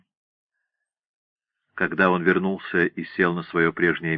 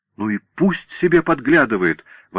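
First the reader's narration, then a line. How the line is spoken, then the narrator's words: Exclaiming. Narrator (Russian): воскликнула она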